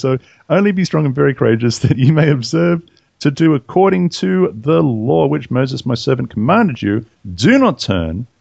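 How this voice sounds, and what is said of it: Australian accent. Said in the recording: “they don't have Australian accents, y'all.”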